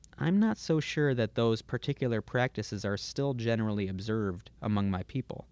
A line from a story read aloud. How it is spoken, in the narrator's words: the Tonga pastor tentatively gently spoke